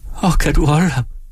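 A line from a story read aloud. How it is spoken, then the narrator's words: Wailing. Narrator (Danish): jamrede hun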